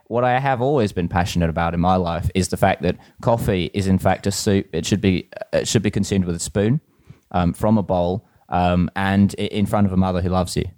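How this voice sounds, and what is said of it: Accent veering California, British, South African. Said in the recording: “an accent which is not really from anywhere in particular. You know, it sort of veers wildly between sort of a California, British, and South African”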